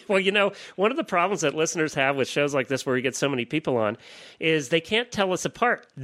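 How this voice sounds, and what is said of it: Northeastern US accent. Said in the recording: “I am the one with the weird Northeastern accent.”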